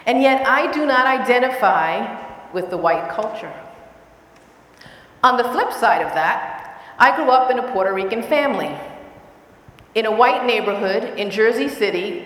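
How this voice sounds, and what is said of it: Bronx accent. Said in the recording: “I speak English just like you do, with the exception of my Bronx accent, of course.”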